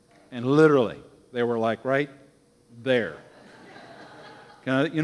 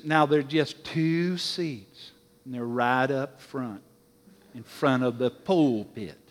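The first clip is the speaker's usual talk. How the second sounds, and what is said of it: Put-on Southern accent. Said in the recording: “she was a Southern gal. Now, pardon my Southern accent here.”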